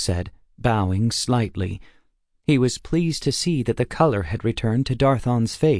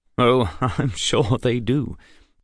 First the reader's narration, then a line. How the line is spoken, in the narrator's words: Darthon said with a chuckle